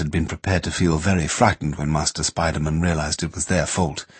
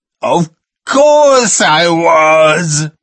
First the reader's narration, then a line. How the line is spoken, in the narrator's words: Master Spider-Man more or less howled